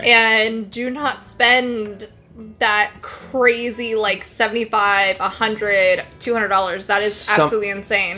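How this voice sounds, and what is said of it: Slightly crackly voice. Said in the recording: “my voice is a little crackly from breathing in my bourbon earlier”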